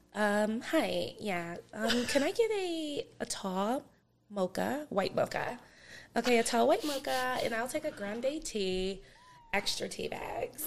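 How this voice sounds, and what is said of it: Put-on white girl voice. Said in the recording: “What's your best white girl voice? Give me your white girl voice ordering a coffee. Order a coffee as a white girl.”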